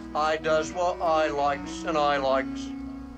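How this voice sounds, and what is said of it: Put-on Cockney accent. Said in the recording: “this Cockney accent”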